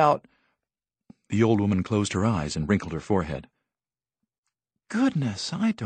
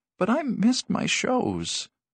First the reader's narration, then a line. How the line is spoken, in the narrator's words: Irma Ruggles said mournfully